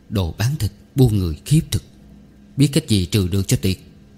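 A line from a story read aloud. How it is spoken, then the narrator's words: Muttering to himself. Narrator (Vietnamese): Cậu lẩm bẩm, hình như nói một mình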